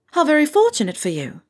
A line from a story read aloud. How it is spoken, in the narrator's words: Artemisia blurts